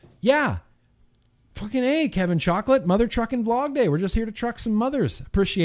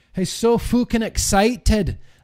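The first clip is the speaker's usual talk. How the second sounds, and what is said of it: Put-on Scottish accent. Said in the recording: “That's really more of a Scottish accent that I'm doing now”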